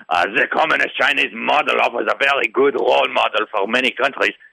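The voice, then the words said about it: Klaus Schwab impression. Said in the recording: “do my best Klaus Schwab impression”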